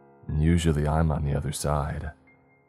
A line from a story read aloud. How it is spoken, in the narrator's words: responded in a dry tone